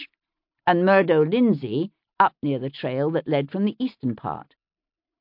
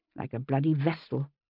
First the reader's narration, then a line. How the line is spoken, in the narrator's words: I muttered to myself